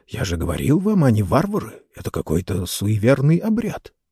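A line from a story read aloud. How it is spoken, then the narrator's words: Whisper. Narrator (Russian): один версгорец прошептал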